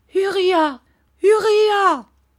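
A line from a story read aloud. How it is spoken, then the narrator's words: Mother shouting. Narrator (French): cria sa mère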